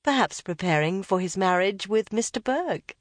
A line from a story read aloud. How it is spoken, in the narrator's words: said Elizabeth